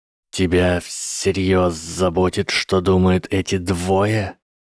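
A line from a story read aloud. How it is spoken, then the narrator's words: Snake hissing. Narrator (Russian): раздалось шипение змеи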